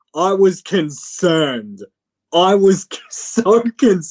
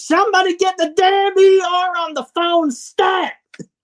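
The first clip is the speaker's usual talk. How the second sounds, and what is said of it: Shouted imitation of another person's voice. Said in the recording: “shouting in my JR voice”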